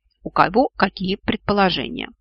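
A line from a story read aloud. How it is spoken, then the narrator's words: Scoffing grunt. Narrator (Russian): хмыкнул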